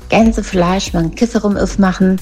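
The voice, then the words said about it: Mock Saxon German accent. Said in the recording (German): “Der schlimmste Dialekt, den es, glaube ich, gibt, das ist der sächsische.”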